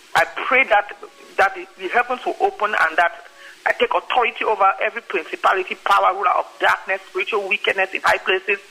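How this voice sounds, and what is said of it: Accented, fast speech. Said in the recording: “with my accent and I talk fast”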